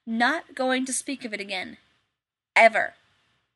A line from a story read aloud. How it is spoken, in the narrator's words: Shepard said firmly